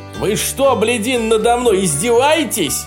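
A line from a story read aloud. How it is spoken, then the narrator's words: Roaring. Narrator (Russian): проревел президент Соединенных Штатов Америки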